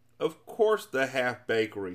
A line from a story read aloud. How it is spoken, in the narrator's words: snapped the king